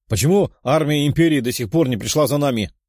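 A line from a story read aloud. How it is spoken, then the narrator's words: Foreigner shouting. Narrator (Russian): крикнул кто-то из иностранцев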